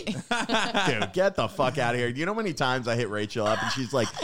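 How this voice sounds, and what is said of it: Usual voice. Nothing is said of it.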